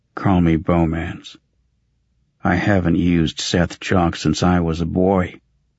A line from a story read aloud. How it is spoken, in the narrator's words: Wearily, for the 1,000th time, he replied